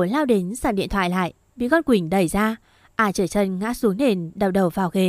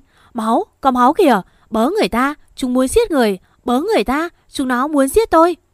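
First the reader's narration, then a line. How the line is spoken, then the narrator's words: Screamed. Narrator (Vietnamese): À gào lên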